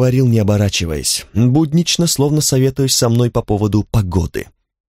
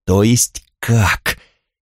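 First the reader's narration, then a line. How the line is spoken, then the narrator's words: Frightening voice, asking. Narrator (Russian): спросил я страшным голосом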